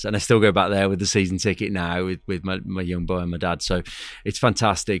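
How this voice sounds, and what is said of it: English Midlands accent. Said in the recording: “You'll be able to tell from the accent throughout the podcast. ... The lilt hasn't gone despite my many years being away from the Midlands.”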